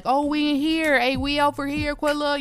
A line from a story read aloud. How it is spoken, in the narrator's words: called out